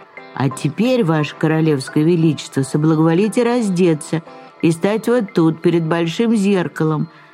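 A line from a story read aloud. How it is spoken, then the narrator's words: Plain. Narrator (Russian): сказали королю обманщики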